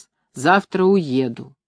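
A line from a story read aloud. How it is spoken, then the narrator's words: Droning voice from another room. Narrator (Russian): в комнате матери прогудел ее голос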